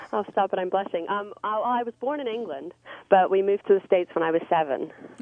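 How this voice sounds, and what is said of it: English accent. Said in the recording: “your accent is so hot. Where are you from? What's the background on that speech?”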